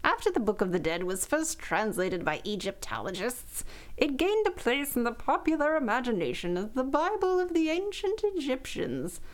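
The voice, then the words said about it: Shaky put-on British accent. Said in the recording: “this is not a British accent at all, but we're just going with it. ... I like how it's sort of shifting as you go along. ... I feel like we're getting very close to Australian.”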